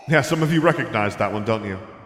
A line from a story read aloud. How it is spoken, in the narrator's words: he called into the sea of people